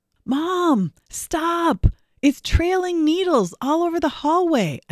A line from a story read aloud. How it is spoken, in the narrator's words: shouted